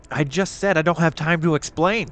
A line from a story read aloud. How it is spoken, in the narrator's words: snapped Lucy